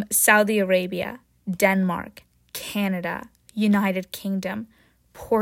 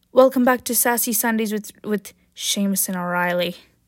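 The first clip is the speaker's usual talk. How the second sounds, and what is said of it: Bad put-on Irish accent. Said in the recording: “that's my horrible Ireland Irish accent”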